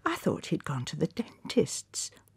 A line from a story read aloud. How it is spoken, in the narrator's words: whispered Constance